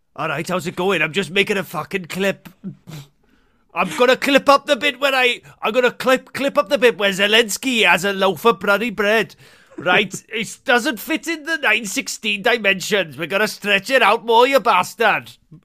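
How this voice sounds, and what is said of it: Fairly good put-on Welsh accent. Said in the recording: “You've got quite a good Welsh accent.”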